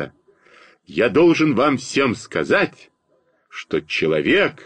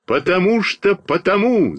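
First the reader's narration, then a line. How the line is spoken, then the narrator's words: Shouting. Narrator (Russian): закричал я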